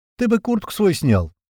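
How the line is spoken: Snorting smirk. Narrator (Russian): хмыкнул Адуван

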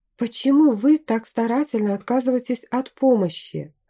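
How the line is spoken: Sigh. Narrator (Russian): вздохнула

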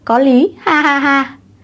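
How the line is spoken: Loud laughter. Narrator (Vietnamese): Lôi Văn Lực cười lớn

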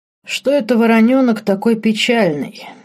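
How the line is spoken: Snide question. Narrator (Russian): ехидно поинтересовался Марк

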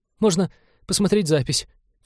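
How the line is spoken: Trembling voice. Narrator (Russian): все еще дрожащим голосом предложил навигатор

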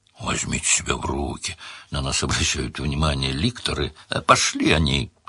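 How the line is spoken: Rough. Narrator (Russian): сказал Сварог грубо

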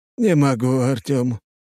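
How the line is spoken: Long drawn sigh. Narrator (Russian): патриарх протяжно вздохнул

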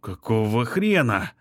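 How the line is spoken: Detective's grumbling mutter. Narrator (Russian): пробурчал сыщик

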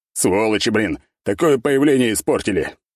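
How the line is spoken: Grumble. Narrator (Russian): проворчал я

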